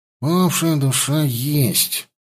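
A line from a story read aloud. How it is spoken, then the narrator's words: Grumbling. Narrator (Russian): проворчал Петька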